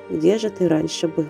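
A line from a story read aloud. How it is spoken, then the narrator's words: Happy drowsy whisper. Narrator (Russian): Погружаясь в томный сон на плече мужчины, счастливая Вика прошептала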